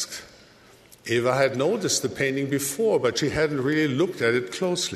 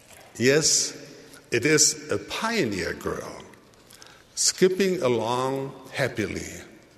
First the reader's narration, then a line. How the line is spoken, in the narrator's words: Aunt Rose said